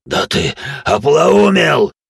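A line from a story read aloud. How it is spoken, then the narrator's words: Roaring. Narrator (Russian): взревел вышеупомянутый Зеркс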